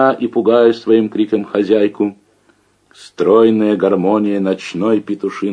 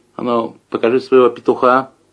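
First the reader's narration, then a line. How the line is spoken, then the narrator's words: Dry request. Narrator (Russian): сухо поздоровался, попросил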